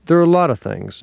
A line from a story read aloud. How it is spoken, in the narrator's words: Nick sighed